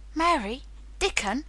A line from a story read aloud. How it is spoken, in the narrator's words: he cried